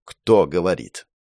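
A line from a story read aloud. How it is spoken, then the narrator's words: Icy, through gritted teeth. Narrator (Russian): ледяным голосом процедил профессор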